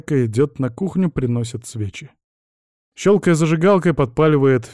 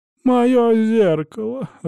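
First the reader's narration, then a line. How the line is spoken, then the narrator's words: Sobbing. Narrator (Russian): рыдает Люсьена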